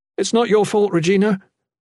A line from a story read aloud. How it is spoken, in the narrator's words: Jen called out to her, wincing